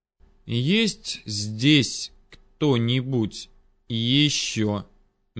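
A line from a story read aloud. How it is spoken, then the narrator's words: Slow, deliberate question. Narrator (Russian): Медленно выговаривая слова, снова спросил я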